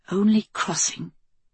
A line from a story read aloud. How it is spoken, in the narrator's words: Kelsey whispered